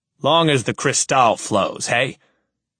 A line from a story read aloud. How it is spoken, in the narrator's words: He chuckles